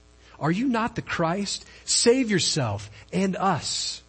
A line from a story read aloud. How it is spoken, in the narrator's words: he said